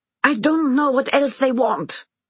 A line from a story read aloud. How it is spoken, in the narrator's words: Anna screams